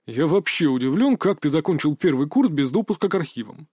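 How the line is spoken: Grumbled. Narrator (Russian): пробурчал Зверь

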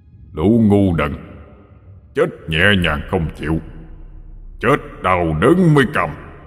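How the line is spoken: Roaring man. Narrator (Vietnamese): Ông ta gầm lên

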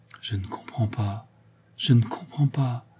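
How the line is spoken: Murmured. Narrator (French): murmura-t-elle

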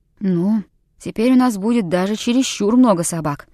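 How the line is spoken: Gloomy. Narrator (Russian): мрачно сказал Хичкок

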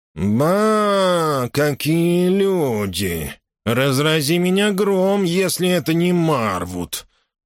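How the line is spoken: Nasal, stuffy voice. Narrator (Russian): Он говорил гнусаво, будто у него был заложен нос

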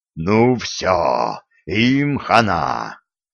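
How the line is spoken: Growled. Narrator (Russian): прорычал Филька

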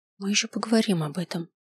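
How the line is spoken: Quiet promise. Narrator (Russian): тихо пообещал я

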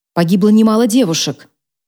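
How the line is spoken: Sharp tone. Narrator (Russian): резким тоном уточнила его коллега

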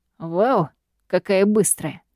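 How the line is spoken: Calm, serious tone. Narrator (Russian): Спокойным, серьезным тоном отвечаю

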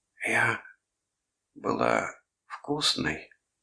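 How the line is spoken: Hoarse whisper. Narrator (Russian): хрипло прошептала

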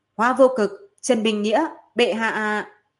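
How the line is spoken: Loud middle-aged man. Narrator (Vietnamese): Miêu Vân Sơn là một người trung niên có chút mập mạp, lớn tiếng nói

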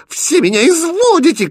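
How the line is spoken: Shouting. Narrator (Russian): кричала принцесса

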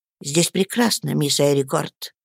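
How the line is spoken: Quiet and calm. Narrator (Russian): отвечал он тихо и спокойно

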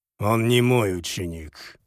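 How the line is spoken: Through gritted teeth. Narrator (Russian): процедил генерал

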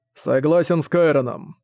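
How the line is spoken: Said grimly. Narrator (Russian): мрачно сказала Ланик

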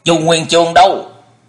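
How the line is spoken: Stern shouted question. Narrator (Vietnamese): Dân Hư nghiêm nghị quát hỏi

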